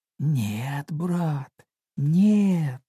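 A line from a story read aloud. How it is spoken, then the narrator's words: Pitiful pleading. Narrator (Russian): жалким голосом прошу я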